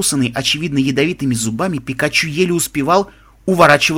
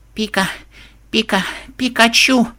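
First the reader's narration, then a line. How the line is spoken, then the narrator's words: Weakening mutter. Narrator (Russian): бормотал тот, слабее с каждой секундой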